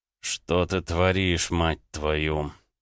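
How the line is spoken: Muttered. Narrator (Russian): Пробормотал он

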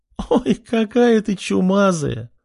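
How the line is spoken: Woman laughing loudly. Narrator (Russian): расхохоталась женщина

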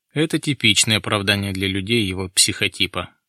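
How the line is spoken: Muttering. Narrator (Russian): пробормотал Гуртуев

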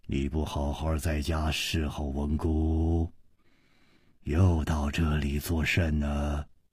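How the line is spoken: Low, commanding voice. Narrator (Chinese): 这个声音 低沉之中隐隐有微，一听那就知道是惯于发号施令的人

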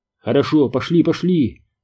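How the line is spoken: Exclamation. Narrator (Russian): воскликнул гус

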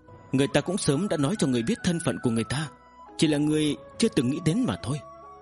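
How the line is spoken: Sighing, sorrowful woman. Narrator (Vietnamese): Vân Sơ Tụ cũng thở dài, nàng u oán nói

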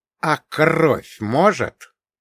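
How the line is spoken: Near hiss. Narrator (Russian): почти зашипел я

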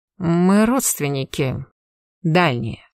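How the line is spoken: Reluctant, through teeth. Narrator (Russian): неохотно процедил Персиваль

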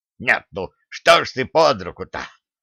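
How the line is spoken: Wheezing, coughing hard. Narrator (Russian): просипел он, отчаянно кашляя

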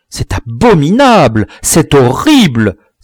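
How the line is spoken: Many voices exclaiming. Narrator (French): s'écrièrent toutes les voix

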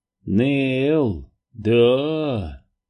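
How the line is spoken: Slightly hoarse. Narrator (Russian): хрипловато произнес он

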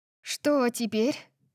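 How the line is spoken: Sighing. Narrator (Russian): вздохнула я

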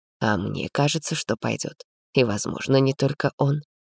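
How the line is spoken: Gentle objection. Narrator (Russian): мягко возразил я

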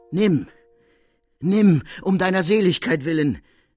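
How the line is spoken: Called out. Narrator (German): rief der Mensch

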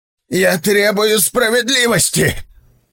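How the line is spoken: Shouted out. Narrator (Russian): выкрикнул он

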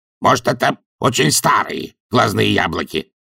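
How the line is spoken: Snapping retort. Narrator (Russian): огрызнулся ворон

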